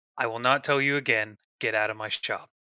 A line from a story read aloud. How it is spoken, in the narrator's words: Buntingo is going to speak calmly and say